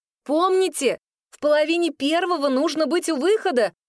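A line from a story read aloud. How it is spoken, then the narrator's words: Hurried shout. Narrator (Russian): Только успела я крикнуть обеим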